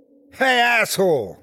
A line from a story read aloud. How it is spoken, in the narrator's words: yelled